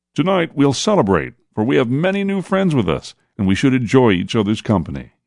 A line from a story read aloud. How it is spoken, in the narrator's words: Mark called out to all